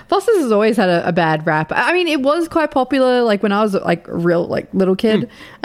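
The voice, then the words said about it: Australian accent. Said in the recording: “they heard the accent ... You're Australian”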